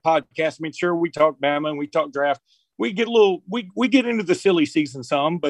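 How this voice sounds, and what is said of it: Regional Alabama accent. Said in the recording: “your accent adds to your credibility on all things Crimson Tide”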